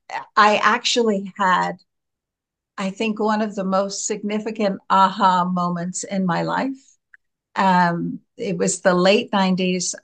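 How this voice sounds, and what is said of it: American accent. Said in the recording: “We can hear the American accent”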